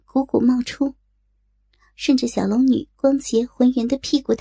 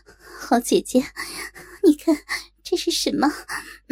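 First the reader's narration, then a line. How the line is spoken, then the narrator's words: Breathless. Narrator (Chinese): 一边喘息道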